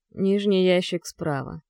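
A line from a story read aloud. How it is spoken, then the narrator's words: Muffled voice. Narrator (Russian): глухо произносит Стас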